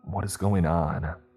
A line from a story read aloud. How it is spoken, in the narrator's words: I whispered again, feeling like tendrils of dread were reaching out of the gloom and jamming themselves in me